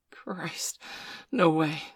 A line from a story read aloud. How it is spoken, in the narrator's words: Steph gasped